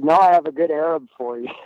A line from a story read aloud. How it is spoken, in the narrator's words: laughed and said